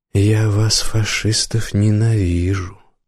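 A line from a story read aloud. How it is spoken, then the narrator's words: Quiet. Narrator (Russian): сказал викинг негромко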